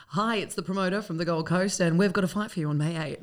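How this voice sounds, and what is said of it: Radio announcer voice. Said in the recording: “was that your radio voice?”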